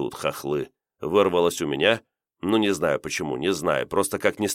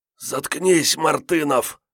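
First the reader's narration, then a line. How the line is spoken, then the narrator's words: Hoarse, just awakened. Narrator (Russian): просипел вдруг очнувшийся сержант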